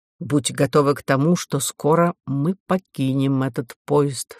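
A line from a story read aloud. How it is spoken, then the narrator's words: Plain. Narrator (Russian): сказал он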